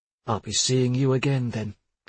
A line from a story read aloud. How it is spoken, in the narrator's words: she said in a cold monotone